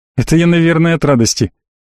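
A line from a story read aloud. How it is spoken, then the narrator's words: Snort. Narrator (Russian): хмыкнул парень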